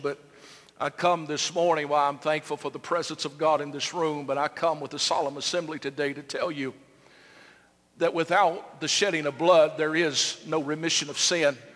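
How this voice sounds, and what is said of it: Emotional, solemn preaching voice. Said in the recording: “I may be a little emotional”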